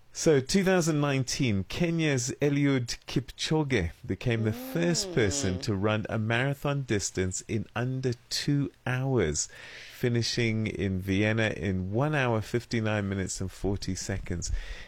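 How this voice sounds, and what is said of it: Put-on Scottish accent. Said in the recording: “I'm going to do it in Scottish accent”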